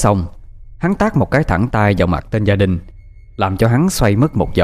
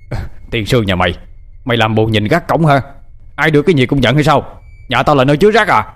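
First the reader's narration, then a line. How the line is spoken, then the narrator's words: Angry shout. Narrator (Vietnamese): Hắn quát lên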